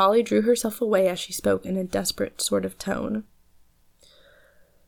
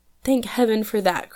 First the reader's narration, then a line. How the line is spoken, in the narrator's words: cried Polly, with the heartiest satisfaction in her voice